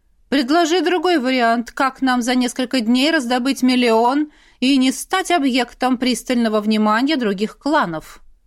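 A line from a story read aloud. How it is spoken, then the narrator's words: Father's snort. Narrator (Russian): хмыкнул отец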